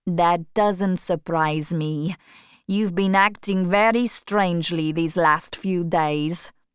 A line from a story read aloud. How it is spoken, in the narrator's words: said the other